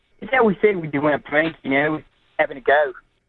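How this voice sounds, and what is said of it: Poor put-on Australian accent. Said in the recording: “You can drop the accent now, bro. ... It was so bad. ... I don't even think I know how to do an Australian accent, but it came out all right, I guess.”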